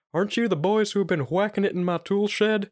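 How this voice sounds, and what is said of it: Hank Hill / Tom Anderson impression. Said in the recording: “Tom Anderson's the same voice ... it's just a fucking Hank Hill voice ... That's a good impression.”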